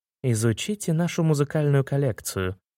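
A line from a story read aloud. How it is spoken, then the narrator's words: Purring. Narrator (Russian): промурлыкал второй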